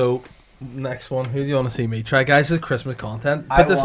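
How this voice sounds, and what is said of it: Usual voice. Nothing is said of it.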